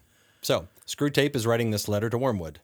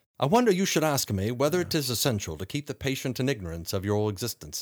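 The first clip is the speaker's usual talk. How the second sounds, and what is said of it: Put-on British accent, mixed. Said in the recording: “That was like mixed Scottish, British, Irish. ... My British accent is better ... Slovakian.”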